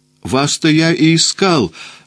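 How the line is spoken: Joyful exclamation. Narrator (Russian): воскликнул я радостно

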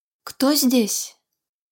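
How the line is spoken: Sorceress, weak voice. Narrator (Russian): спросила вдруг чародейка слабым голосом

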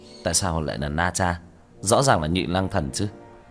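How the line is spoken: Puzzled mutter. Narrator (Vietnamese): Tiểu Thất lẩm bẩm

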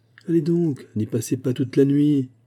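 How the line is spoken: Tense, strained shout. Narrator (French): cria, dont les ongles blanchissaient à se crisper sur la table

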